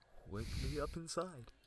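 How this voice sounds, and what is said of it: Poor attempt at Goofy cartoon voice. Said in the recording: “I can't even do a Goofy voice. ... That was a noble attempt. ... It was ass”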